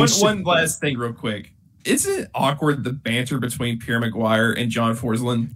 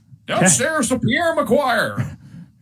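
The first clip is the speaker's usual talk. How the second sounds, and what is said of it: Sportscaster impression. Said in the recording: “That was more of a Kenny impression ... You have a very solid Kenny impression”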